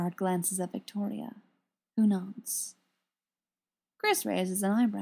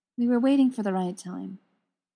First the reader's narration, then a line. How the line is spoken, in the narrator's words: Victoria says